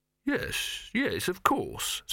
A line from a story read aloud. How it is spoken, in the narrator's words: said soothingly